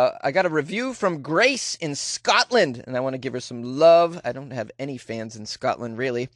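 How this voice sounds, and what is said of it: Usual voice. Nothing is said of it.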